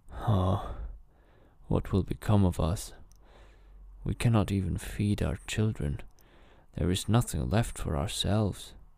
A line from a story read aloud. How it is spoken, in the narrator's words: he sighed heavily and said to his wife